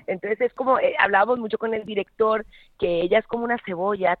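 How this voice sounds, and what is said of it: Colombian Spanish accent. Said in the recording (Spanish): “a mí me escuchas con mi acento”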